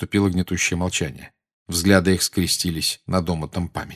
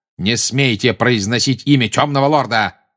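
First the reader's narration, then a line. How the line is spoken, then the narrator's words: Bark. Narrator (Russian): рявкнул Снег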